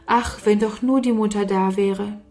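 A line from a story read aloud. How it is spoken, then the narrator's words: Sighing. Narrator (German): Oft seufzte Sarah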